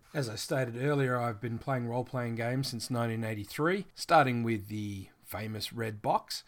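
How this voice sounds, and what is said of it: Australian English accent. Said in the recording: “I live in Australia, which you've probably already guessed by my accent.”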